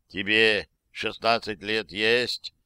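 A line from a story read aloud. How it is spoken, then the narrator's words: Hissed into ear. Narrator (Russian): прошипел мне в ухо Али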